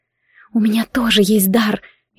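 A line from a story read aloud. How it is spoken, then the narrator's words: Barely audible. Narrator (Russian): едва слышно поделилась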